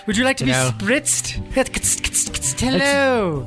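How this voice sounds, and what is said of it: Put-on upper-class British accent. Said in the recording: “speaks with a fine, you know, upper class British accent”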